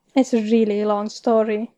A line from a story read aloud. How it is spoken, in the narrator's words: Pearson sighs